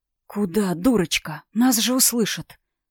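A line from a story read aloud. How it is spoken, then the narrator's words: Hoarse rasp in ear. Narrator (Russian): прохрипел мне на ухо Дар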